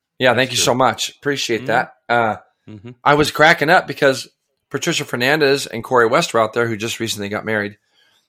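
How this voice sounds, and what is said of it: Rough, sick-sounding voice. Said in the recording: “I'm still a little bit sick, if you can't tell. Not sick, but my voice is just nuts. ... You sound like shit.”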